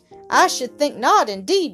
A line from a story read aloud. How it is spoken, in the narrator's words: muttered Peter indignantly